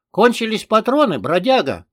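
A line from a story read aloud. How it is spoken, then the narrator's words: Shouted. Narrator (Russian): крикнул он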